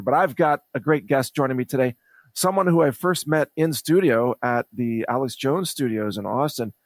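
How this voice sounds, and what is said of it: Raspy voice. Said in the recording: “Excuse my raspy voice today.”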